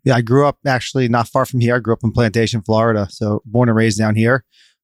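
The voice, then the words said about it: Slight New York accent. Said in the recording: “So I've got the New York and New Jersey blood in me. ... And a little bit of an accent, by the way. ... everyone thinks I'm a New Yorker”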